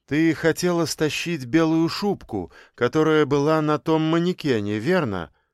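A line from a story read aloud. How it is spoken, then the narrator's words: Plain. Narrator (Russian): спросил он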